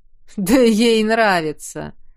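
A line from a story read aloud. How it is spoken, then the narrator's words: Man snorting. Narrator (Russian): снова хмыкнул северянин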